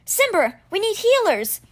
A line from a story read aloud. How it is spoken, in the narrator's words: Alex called out